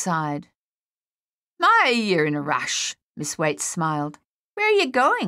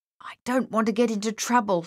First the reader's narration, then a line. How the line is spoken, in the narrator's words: he mumbled